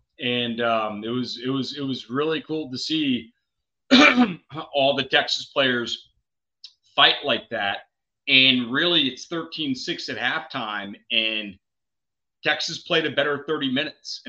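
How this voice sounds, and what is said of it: Hoarse, strained voice. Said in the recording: “I'm already losing my voice, you can probably tell”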